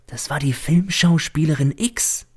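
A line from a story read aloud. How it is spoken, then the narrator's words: Whispered. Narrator (German): flüstert mir der Diener zu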